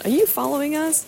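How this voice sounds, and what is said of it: Poor put-on American accent. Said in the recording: “Sorry for this terrible attempt at an American accent there.”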